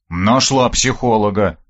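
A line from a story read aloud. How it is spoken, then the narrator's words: Grumbling. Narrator (Russian): проворчал я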